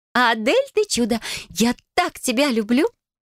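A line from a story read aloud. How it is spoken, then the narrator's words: Joyful. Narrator (Russian): Радостно кузина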